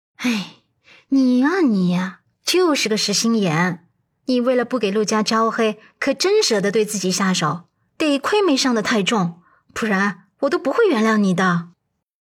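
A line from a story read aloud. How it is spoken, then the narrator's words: Sighing. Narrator (Chinese): 阮伊人叹息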